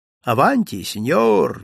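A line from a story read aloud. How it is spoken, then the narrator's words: Cheerful. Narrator (Russian): весело произнес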